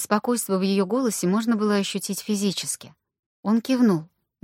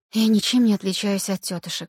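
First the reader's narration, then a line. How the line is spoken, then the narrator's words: Sighing. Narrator (Russian): вздохнула Аня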